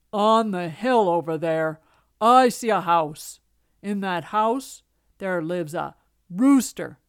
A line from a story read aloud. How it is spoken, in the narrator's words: he said in a big gruff voice